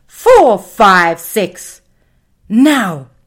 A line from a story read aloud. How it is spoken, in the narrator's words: The voice shouted